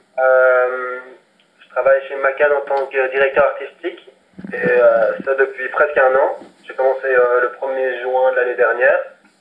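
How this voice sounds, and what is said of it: Belgian French accent. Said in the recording (French): “tu peux le voir à mon accent, mais je suis belge à la base”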